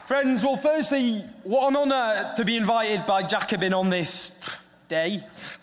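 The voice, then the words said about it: Northern English accent. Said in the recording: “my Northern English accent. I've already been told it sounds ridiculous”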